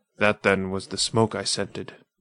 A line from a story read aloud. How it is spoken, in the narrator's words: muttered the man